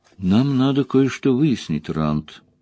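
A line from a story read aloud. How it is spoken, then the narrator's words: Quiet. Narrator (Russian): негромко сказала Верин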